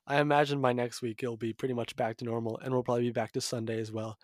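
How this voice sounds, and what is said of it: Stuffy, congested voice. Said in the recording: “my voice sounds a little different and stuffy and congested.”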